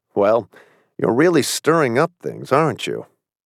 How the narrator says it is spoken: He chuckled

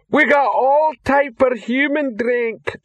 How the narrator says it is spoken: shouted the female troll behind the bar

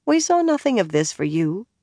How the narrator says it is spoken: Bear added in a milder tone

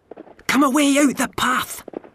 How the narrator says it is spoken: hissed Rob Anybody

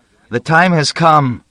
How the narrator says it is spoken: I cried

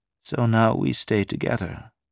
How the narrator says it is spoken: Carol said softly

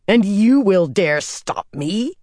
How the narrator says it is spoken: Katarine snarled

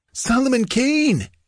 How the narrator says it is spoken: gasped the other bandit

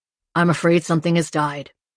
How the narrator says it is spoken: said, his tone neutral

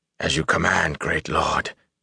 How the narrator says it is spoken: he whispered hoarsely

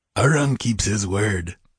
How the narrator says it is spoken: grunted yet another

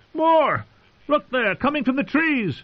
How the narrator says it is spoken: a man said to Blaine, and another shouted

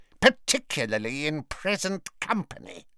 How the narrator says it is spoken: snarled Bellatrix

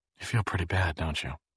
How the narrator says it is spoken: She said softly

